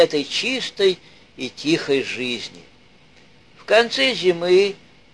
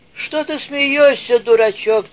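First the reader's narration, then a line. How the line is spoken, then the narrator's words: Shouting. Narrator (Russian): закричал он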